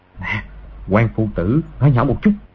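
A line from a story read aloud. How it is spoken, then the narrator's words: Soft voice. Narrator (Vietnamese): nói khẽ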